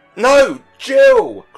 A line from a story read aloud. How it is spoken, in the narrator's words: cried both the parents